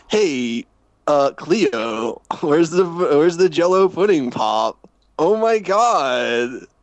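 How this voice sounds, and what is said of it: Imitates another person's voice. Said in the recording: “Can you do an impression of Bill Cosby?”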